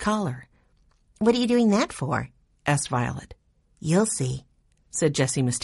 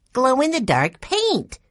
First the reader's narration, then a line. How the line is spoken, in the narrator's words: Violet exclaimed